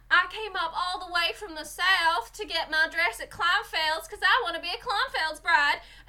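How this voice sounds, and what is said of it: Imitated American Southern accent. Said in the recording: “they'll get a lot of southern people on, and they'll edit it to be like”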